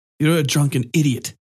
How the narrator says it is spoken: Jinichiro snapped

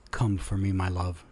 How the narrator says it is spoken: he murmured into her ear

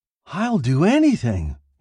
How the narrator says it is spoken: he cried

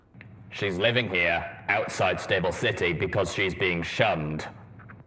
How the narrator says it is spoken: Steelhoof said, his voice carrying an edge

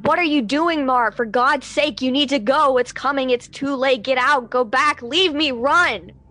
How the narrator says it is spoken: all the while she's screaming

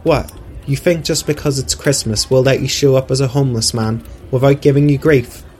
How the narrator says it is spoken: Sophie said

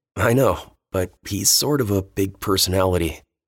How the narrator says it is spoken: Dean chuckled

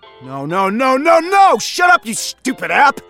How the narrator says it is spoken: yelled

